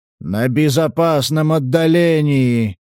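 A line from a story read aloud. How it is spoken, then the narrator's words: Giant's growl. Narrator (Russian): рыкнул великан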